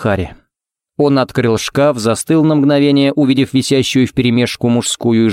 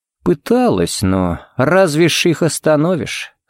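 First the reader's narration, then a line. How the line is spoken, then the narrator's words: Sigh. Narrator (Russian): Харри вздохнул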